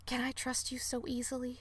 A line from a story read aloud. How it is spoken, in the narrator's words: Thyme whispered at Tanuki